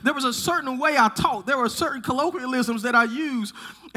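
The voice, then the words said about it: Southern US accent. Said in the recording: “I live in the South. I'm a son of the South. I'm sure you can hear it in my voice... you're so Southern”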